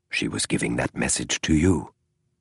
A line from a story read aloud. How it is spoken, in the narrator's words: Holmes said softly